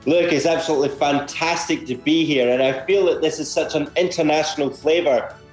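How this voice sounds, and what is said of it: Scottish accent. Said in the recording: “I'm a Scotsman here in Australia ... you have an interesting Australian accent. Doesn't really fit with the Australian accent I hear from most people”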